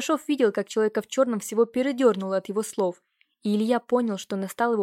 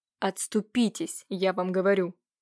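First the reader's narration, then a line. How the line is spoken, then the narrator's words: Menacing through gritted teeth. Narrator (Russian): угрожающе процедил незнакомец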